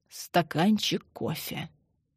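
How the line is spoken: Quiet. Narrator (Russian): тихо проговорила Мария Ивановна

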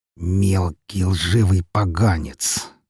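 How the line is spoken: Slow venomous hiss. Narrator (Russian): медленно, словно сплевывая яд, прошипел он

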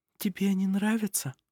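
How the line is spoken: Whisper. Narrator (Russian): прошептала она

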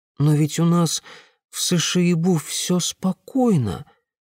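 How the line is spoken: Uncertain objection. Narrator (Russian): неуверенно возразила Аянь

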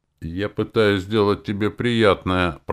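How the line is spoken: Grumbling. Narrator (Russian): пробурчал

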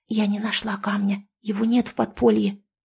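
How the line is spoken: Whispered. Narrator (Russian): прошептала Маруся

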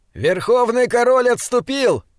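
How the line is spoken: Shouted. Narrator (Russian): закричал Диорнот

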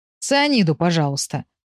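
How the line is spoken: Gloomy request. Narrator (Russian): мрачно попросил Гоша

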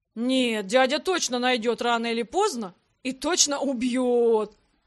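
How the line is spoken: Wild howl. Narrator (Russian): Дурным голосом провыл последнее слово Грег

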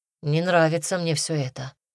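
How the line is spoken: Sighing. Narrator (Russian): вздохнул Дима

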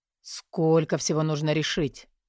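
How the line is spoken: Muttering. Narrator (Russian): бормотал Тилор

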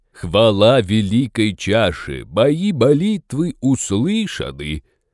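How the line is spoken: Pompous announcement. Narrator (Russian): Пафосно объявил шаман

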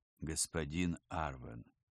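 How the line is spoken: Quiet but confident. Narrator (Russian): ФСБшник говорил негромко, но уверенно

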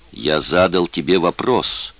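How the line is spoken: Threatening tone. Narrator (Russian): угрожающим тоном произнес Оззи

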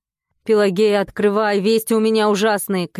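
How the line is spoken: Shouting neighbor. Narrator (Russian): кричал сосед

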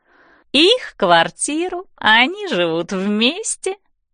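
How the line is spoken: Singsong. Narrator (Russian): говорит Стеф нараспев

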